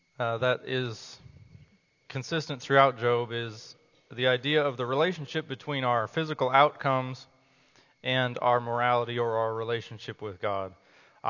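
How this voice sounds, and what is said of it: Strained, fading voice. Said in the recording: “I'm losing my voice. You all better speak up.”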